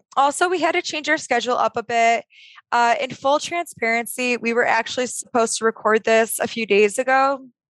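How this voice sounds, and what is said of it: Strained, fading hoarse voice. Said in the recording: “I don't know if you can hear it in my voice, but I'm starting to lose my voice. So talking's a little bit difficult right now.”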